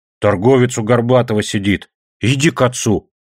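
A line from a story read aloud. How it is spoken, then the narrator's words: Angry woman. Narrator (Russian): сердито говорит она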